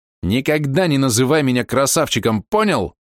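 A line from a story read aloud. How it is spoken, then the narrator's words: Shouting out. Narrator (Russian): выкрикнул Валерка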